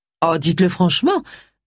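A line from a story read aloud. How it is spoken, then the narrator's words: Sharp retort. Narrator (French): répliqua Cassandra d'un ton acerbe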